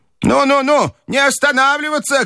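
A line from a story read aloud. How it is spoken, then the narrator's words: Shout. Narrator (Russian): кричала бабушка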